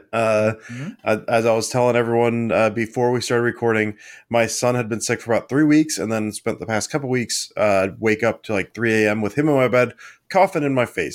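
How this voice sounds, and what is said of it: Rough, sick-sounding voice. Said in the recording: “tell from my voice ... my voice is clearly not great”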